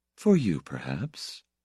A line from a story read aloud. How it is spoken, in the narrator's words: She said in her level maternal voice